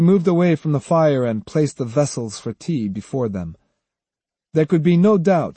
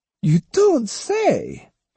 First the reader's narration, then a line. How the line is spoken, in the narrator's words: exclaimed Myoshu